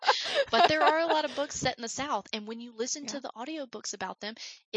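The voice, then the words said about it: Thick Southern American accent. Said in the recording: “I love your voice and your accent ... maybe my accent's not really actually that bad or that intense ... it's not bad. It is thick ... bona fide Southern accent”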